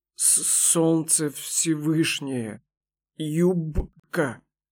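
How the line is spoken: Shocked, stuttering whisper. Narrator (Russian): Потрясенно прошептал Арданеш, от волнения заикаясь еще сильнее

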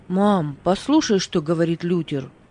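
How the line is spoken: Exclaiming. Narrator (Russian): воскликнул он

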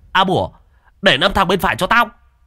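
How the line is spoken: Shouting. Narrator (Vietnamese): Hùng hét lên

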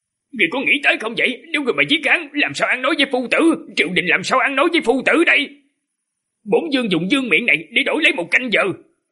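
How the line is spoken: Furious loud shout. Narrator (Vietnamese): Thân vương Lý Phái Ngôn sắc mặt tái nhợt, đôi mày hừng hực lửa giận, lớn tiếng quát Hạ Hầu

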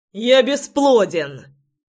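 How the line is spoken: Shout. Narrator (Russian): закричал я ей в спину

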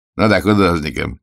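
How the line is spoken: Snorting. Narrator (Russian): хмыкнул детектив

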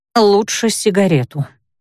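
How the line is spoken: Gloomy. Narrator (Russian): мрачно ответствовала

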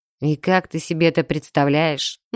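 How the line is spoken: Gloomy objection. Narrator (Russian): мрачно возразил

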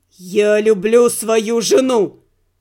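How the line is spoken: Through gritted teeth. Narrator (Russian): процедил Игорь

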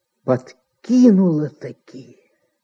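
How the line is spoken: Angry, through gritted teeth. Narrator (Russian): со злобой процедил он сквозь зубы

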